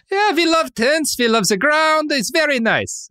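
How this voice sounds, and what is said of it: Bad put-on German accent. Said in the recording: “My German accent, terrible.”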